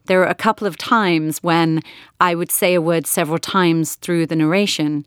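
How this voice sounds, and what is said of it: Mixed British-American accent. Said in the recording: “my now hybrid British-American accent”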